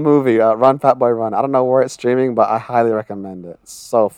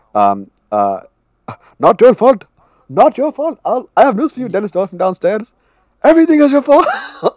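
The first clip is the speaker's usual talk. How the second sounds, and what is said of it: Imitates another person's voice, put-on accent. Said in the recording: “Sorry for the accent.”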